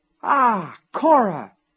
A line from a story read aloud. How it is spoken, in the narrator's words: he exclaimed